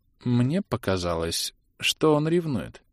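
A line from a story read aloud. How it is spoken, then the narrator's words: Uncertain, wife speaking. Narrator (Russian): неуверенно сообщила ему жена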